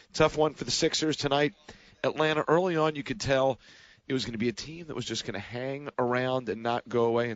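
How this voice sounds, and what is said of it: Sick-sounding, strained voice. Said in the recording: “games like this don't do this to your voice. It's just a thing passing through, the dreaded upper respiratory infection.”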